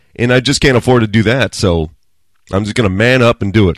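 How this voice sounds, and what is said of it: Rough, altered voice. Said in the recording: “sorry about my voice. If it sounds like there's a guest host ... I'm getting off this cold, or this flu, or whatever it was, and it jacked up my voice”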